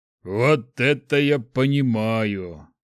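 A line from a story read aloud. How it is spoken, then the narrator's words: Pleased drawl. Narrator (Russian): довольно протянул Шухрак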